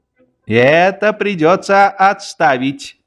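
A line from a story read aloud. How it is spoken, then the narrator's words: Plain. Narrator (Russian): сказал вольно определяющийся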